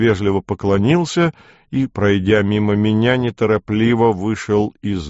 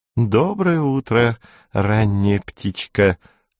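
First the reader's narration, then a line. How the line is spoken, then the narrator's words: Cooing. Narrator (Russian): проворковала она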